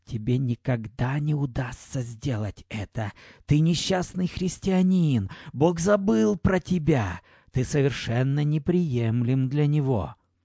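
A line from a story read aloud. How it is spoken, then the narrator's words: Whisper. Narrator (Russian): шепот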